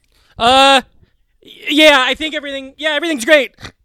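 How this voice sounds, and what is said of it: Imitates another person's voice, sounding terrified. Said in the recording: “this is my impression of Reem. ... That's him terrified that it's not.”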